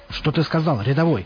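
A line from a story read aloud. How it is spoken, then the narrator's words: Barked. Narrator (Russian): рявкнул он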